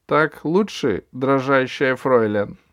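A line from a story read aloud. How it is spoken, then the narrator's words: Plain. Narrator (Russian): спросил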